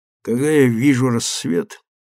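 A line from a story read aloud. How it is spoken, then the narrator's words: Hoarse. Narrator (Russian): хрипло сказал Марко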